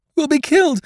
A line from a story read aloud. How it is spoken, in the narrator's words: wailed the sisters